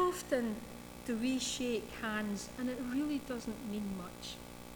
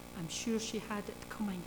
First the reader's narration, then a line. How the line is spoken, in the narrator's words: one man whispered in Churchill's ear